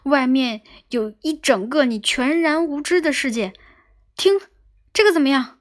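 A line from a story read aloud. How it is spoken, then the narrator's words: Shouted. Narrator (Chinese): 他对卫兵喊道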